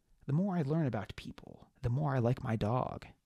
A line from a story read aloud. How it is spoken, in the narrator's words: said Mark Twain